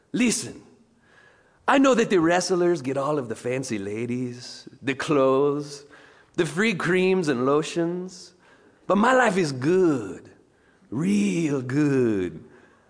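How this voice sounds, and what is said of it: Put-on accent imitating a film character. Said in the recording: “Nacho's mouth, if you'll bear with my accent”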